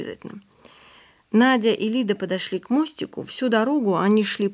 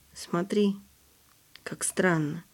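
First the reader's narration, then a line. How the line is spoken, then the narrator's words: Quiet. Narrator (Russian): тихо сказала Надя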